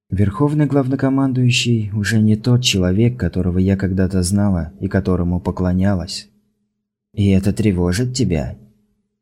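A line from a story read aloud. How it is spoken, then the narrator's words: Sighing. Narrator (Russian): Крисла вздохнула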